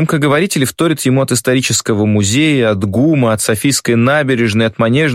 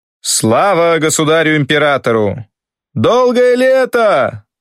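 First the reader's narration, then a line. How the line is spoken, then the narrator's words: Shouted. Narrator (Russian): Кто там первый прокричал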